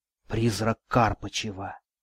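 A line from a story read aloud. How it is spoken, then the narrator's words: Whisper. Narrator (Russian): прошептала Катерина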